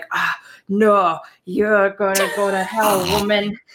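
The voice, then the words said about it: Put-on accent. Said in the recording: “That is a fantastic pretend accent. Well done.”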